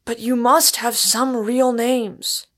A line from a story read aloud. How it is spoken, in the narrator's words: shrieked Inglewood in despair